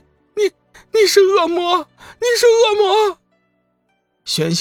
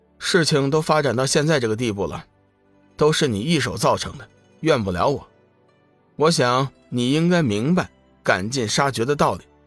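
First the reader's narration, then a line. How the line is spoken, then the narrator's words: Cold, unmoved. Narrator (Chinese): 龙宇不为所动，冷冷的说道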